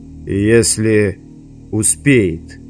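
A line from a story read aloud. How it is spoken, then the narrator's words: Ominous tone. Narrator (Russian): каким-то нехорошим тоном сказал Завулон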